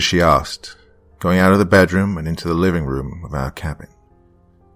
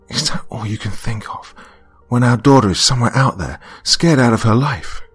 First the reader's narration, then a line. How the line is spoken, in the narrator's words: I sighed